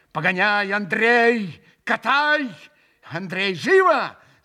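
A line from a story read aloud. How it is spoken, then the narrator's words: Shouting. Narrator (Russian): закричал он в выступлении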